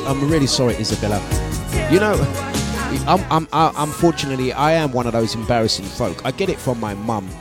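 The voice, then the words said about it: East London English accent. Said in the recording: “I don't have a Dominican accent. I do not have a Dominican accent. I don't. I straight English. East London. Straight.”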